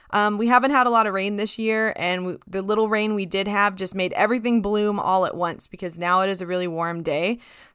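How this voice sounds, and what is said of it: Congested, slightly uneven voice. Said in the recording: “My voice might sound a little weird and a little congested and a little up and down ... So I'm really congested ... my voice sounds funny”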